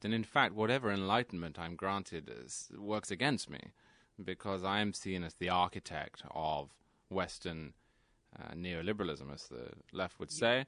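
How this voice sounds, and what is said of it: British accent. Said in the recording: “a white male Brit ... You, with that accent”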